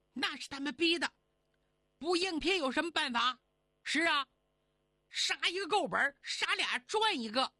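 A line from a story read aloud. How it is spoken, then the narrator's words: Crowd shouting together. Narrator (Chinese): 乡亲们齐喊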